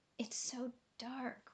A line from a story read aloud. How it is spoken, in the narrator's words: whispered Cora